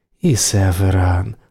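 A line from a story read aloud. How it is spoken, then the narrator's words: Tender. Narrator (Russian): ласково сказала она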